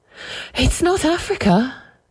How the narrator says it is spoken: she said breathlessly

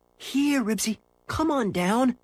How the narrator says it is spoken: begged Henry

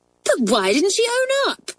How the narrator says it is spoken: cried Hilary indignantly

